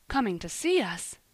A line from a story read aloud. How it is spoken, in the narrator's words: gasped